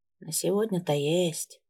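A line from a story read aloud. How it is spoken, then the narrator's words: Sad. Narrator (Russian): печально проговорил Ринальд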